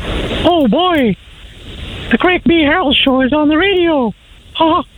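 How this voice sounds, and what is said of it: Mickey Mouse cartoon voice impression. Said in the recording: “An impersonation... Mickey Mouse... that voice”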